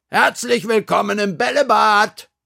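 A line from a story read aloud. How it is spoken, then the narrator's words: Called out. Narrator (German): rief Frau Krüger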